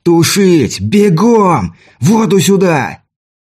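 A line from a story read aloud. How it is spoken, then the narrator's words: Yelling. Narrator (Russian): я заорал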